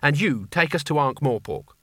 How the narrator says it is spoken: said Kanina firmly

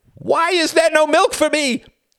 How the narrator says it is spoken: He screamed, his face contorting

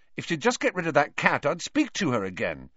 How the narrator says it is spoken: Ron said angrily

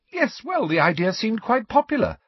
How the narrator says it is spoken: said Hermione happily

